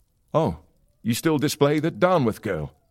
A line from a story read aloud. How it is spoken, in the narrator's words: exclaimed